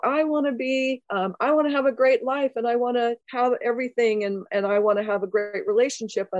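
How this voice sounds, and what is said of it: Whiny voice. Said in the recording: “you can hear my whiny voice in that”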